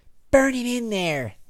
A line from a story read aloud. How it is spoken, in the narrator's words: Lex yelled